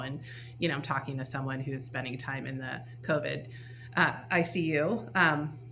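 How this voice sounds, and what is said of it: Tired, exhausted-sounding voice. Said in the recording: “you can probably hear in my voice, I'm also feeling exhausted”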